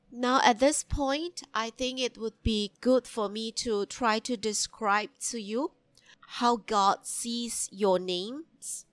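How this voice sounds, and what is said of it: Very nasal, congested voice. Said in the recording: “my voice is very nasal today. I think it's because I'm recovering from a cold or flu.”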